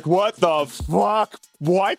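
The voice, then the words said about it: Impression of a security researcher. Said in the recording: “This is my impersonation of a security researcher hearing about this.”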